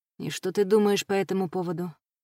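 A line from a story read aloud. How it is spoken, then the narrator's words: Gentle question. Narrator (Russian): мягко спросил Стилет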